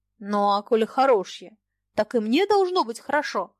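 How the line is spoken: Excited exclamation. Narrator (Russian): воскликнул Фома, чувствуя, как им овладевает волнение, и сердце начинает трепетно биться

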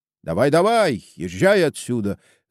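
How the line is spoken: Group shouting. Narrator (Russian): закричали они ему вслед

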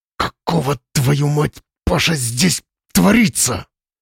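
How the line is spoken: Suppressed hoarse hiss. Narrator (Russian): Слава постарался не орать, поэтому из горла вышло хриплое шипение

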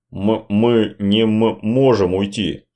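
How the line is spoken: Stammering mumble. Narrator (Russian): запинаясь, пролепетал он

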